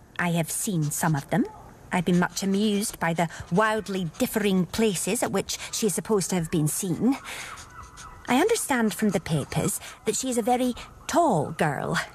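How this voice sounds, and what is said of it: Scottish accent. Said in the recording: “Scottish accent”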